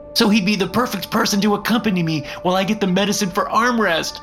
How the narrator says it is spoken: cried Footstool

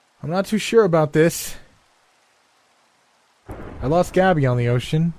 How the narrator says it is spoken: shouted back

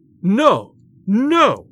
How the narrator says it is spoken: shouted Bellingham

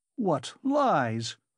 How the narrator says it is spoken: he cried impudently

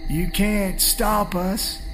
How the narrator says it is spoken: he says with a strained gasp

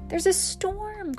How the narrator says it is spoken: cries Hare

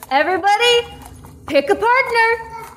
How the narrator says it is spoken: Grinkeeper will yell out

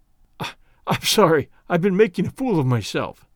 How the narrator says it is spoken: he gasped

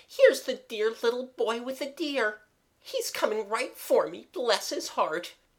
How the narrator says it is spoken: cried Eliza suddenly

